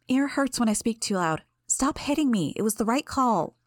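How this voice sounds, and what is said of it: Quieter, softer voice. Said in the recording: “In a quieter voice”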